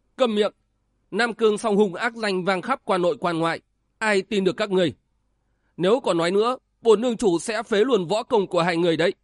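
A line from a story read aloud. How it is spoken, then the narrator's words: Sudden shout. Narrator (Vietnamese): Đoạn Hồn Tiêu Tần Ký chợt quát lên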